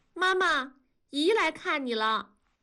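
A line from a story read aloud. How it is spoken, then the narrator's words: Loud announcement. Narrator (Chinese): 燕妮…大声的汇报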